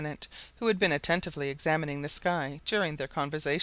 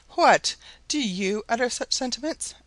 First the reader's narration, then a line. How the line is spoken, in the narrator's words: exclaimed Mrs